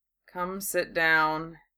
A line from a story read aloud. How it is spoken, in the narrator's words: he said wearily